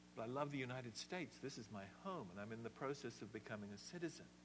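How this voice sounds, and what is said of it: Slight English accent. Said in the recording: “I love England from where I come. You can still hear it a bit in my accent.”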